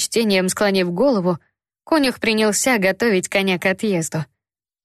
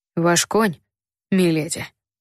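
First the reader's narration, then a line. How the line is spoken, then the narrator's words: Soft gentle voice. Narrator (Russian): мягко проговорил старший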